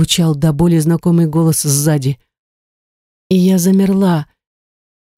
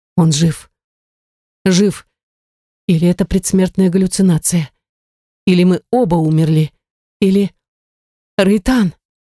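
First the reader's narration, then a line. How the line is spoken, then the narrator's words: Breathless, heart stopping. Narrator (Russian): Выдохнула с замиранием сердца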